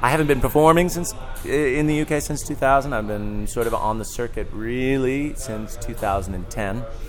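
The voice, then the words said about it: American accent. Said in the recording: “your accent's not British. ... No, I'm American”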